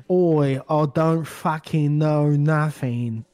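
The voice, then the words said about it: Drunken English accent impression. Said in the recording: “Drunk Michael Caine. ... This is when we first started doing the English accent.”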